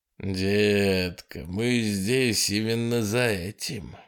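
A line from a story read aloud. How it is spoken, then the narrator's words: Passionate breathy. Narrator (Russian): горячо выдохнул Курт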